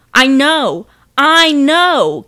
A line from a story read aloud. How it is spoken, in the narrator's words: Kelsey tried to shout over her shoulder